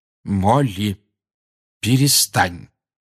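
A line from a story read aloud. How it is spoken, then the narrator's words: Firm voice. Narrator (Russian): твердым голосом сказал Люпин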